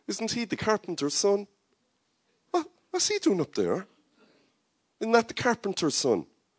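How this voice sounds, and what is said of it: Put-on Cork Irish accent. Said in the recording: “in a Cork accent”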